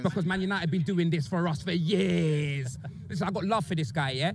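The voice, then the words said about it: British accent. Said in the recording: “the British accent makes everything funny”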